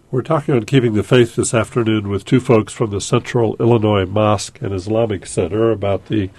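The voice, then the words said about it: Congested voice from a cold. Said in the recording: “I have a bit of a cold today”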